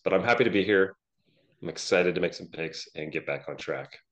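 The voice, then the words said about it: Congested, phlegmy voice. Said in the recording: “I'm currently about 90% phlegm, so I apologize for my voice.”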